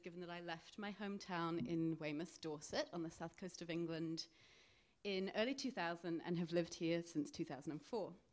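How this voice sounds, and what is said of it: Strong English accent. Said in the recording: “my English accent, which sets me apart as someone who's not from here ... it's as strong as it is”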